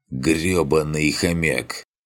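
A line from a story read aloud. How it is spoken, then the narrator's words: Hoarse wheeze. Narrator (Russian): с трудом приподнимая голову, прохрипел Клавдиан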